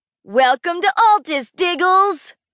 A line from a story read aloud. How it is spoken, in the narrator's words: staring at me with a big, joyful smile, and then he yelled